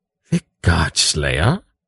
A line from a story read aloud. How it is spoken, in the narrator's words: he asked in an awed voice